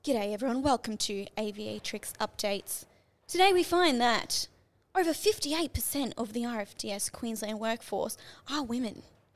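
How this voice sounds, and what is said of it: Mock news reporter voice. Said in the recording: “in a news reporter voice”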